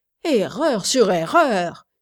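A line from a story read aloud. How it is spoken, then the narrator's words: Exclaiming. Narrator (French): s'écria-t-il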